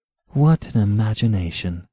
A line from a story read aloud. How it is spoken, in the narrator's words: she said softly and almost enviously